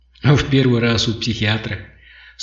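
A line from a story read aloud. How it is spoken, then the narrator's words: Calm question. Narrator (Russian): спокойно спросил Киок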